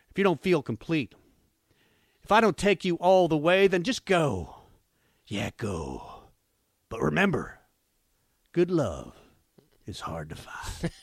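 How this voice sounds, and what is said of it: Put-on accent reading lyrics. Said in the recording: “do you like the accent? ... Too much over the top?”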